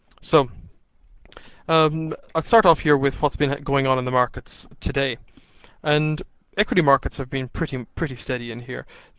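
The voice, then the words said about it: Slightly scratchy voice. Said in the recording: “my voice is a little scratchy at some point through this audio ... I've been pretty much speaking all day”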